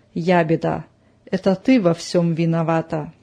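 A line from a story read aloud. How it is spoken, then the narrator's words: Angry whisper. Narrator (Russian): со злостью покосился на нее и прошептал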